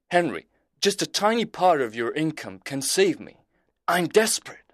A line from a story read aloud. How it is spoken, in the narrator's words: Hastings cried